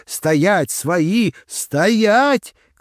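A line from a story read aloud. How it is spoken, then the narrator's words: Shouting together. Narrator (Russian): кричали мы вместе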